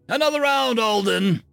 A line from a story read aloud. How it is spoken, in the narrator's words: called out the Zert, called Blem